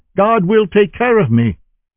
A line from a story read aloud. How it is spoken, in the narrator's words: shouting